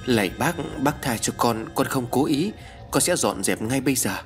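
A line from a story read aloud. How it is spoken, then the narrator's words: Trembling mumble. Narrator (Vietnamese): run rẩy, mồm lẩm bẩm nói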